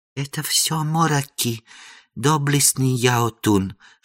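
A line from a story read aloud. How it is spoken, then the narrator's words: Whisper. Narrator (Russian): шепнул бедный монах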